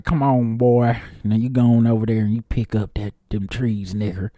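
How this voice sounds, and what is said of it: Put-on Southern American accent. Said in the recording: “everybody was just Southern already ... every white person had that accent”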